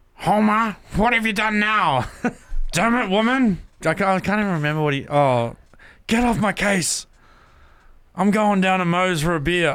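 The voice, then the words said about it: Simpsons cartoon character voices. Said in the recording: “can you please do the Simpsons impersonation? ... We want the Simpsons impersonation ... I got to get into character”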